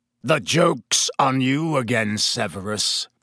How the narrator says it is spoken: Black snarled

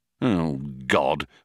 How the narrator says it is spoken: muttered Ford

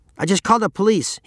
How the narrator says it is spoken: shouted

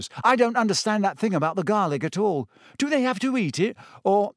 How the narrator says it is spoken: He broke off with a small gasp

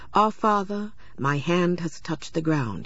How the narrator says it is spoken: he said

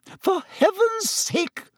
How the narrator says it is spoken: said Madame Pomfrey hysterically

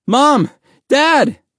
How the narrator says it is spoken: Mahmoud cried

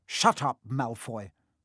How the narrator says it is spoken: snapped Parvati Patil

